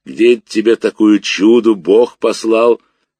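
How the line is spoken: Calm low rumble. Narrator (Russian): Мирно прогудел дедушка

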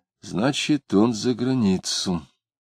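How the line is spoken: Quiet. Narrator (Russian): Дмитрий сказал тихо

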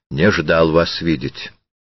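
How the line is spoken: Cold, unfriendly. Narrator (Russian): Он сказал холодно и неприветливо

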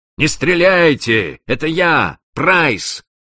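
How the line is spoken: Shout. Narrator (Russian): Одна из них крикнула

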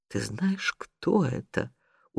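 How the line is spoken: Tender whisper in ear. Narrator (Russian): умильно шепнул ей в ухо Генрих

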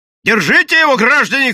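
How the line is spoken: Shouted. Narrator (Russian): крикнул он

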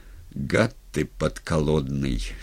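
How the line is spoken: Quiet, after a pause. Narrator (Russian): сказал он, помолчав негромко

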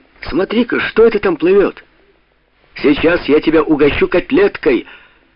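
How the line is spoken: Sudden shout. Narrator (Russian): Франсуа вдруг крикнул своему товарищу

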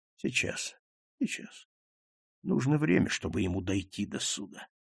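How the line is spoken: Repeated in undertone. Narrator (Russian): Он стал повторять вполголоса

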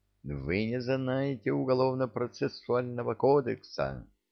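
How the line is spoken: Shrieking. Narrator (Russian): завизжал Трепетов

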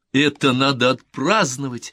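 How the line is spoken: Laughing. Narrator (Russian): смеясь сказала она

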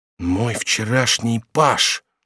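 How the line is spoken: Whisper. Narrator (Russian): прошептал он

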